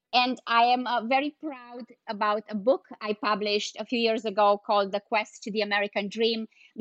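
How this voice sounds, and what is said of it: Non-native European accent in English. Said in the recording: “English is my 4th language, in case you wonder where my accent is coming from ... moving here from Europe”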